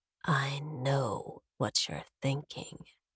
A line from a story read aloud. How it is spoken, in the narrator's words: he whispers